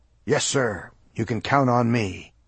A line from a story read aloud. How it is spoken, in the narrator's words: said firmly, and what I hoped was manfully